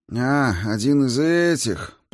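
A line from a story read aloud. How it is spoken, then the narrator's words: Old man's drawl. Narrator (Russian): протянул пожилой водитель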